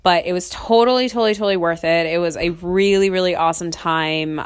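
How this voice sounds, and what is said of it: Slightly off, sick-sounding voice. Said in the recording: “I'm actually a little sick right now ... if my voice sounds a little off or, you know, you hear me sniffling in the background, uh, that's just me being sick ... I caught a cold”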